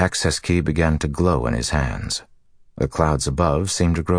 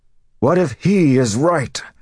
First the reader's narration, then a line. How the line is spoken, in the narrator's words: Rand bellowed